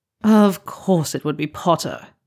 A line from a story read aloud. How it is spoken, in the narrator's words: Draco groans